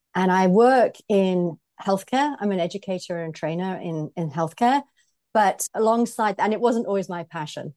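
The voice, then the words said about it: British English accent. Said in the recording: “I am British, as you can probably hear from my voice. So I grew up in the Midlands of Britain”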